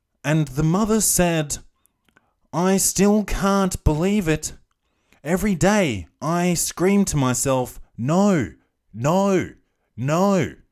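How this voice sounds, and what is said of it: Flat, undramatic news reporter voice. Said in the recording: “you know how they've got that news voice? ... I'll do it in her voice, in the news, the reporter's voice ... That's not dramatic ... Just read it with some passion”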